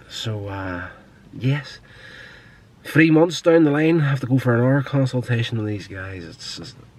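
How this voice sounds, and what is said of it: Nasal, congested voice. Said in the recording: “It's a nasal problem that I've had going for, God, the better part of probably 6 or 7 years ... I'm pretty sure you can hear it in my voice. The more I speak, the more nasally I start to sound.”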